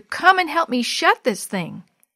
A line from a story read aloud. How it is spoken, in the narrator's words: In desperation, he cried out to his sister